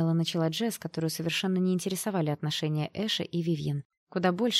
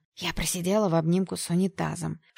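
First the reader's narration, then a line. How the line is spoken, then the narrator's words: Secretive whisper. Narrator (Russian): шепотом сообщила подруга, явно не желая, чтобы это слышали ее молодые кавалеры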